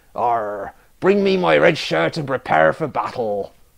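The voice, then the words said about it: Badly done pirate West Country accent. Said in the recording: “Sorry, I'm so bad at accents. ... Apparently he's from the West Country now.”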